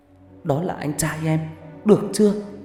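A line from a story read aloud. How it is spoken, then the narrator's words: Sniffling, tearful. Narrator (Vietnamese): Huệ sụt sùi nói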